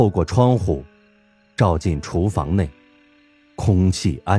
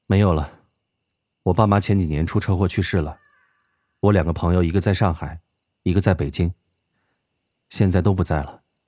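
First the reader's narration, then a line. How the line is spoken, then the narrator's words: Flat, indifferent. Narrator (Chinese): 唐默淡淡地说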